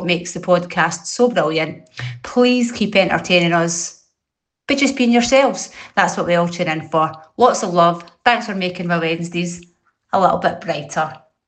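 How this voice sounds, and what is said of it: Scottish accent. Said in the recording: “it was like my grandma talking... I've not heard the Scottish accent like that for so long”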